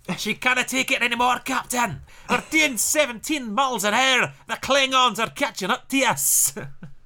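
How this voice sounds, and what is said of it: Scottish-accented character voice. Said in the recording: “he was Scottish ... You need to do Scotty from Star Trek.”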